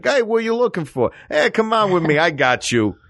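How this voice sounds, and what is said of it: Thick New York accent. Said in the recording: “A New York accent does say, don't mess with me. ... a New York accent ... a very thick accent”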